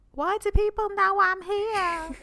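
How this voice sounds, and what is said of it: Imitates another person's accent. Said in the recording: “that was not an accurate representation of your accent.”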